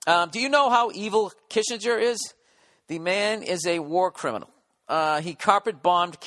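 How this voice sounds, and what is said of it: Usual voice. Nothing is said of it.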